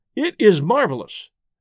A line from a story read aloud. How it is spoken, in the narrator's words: exclaimed D'Arnot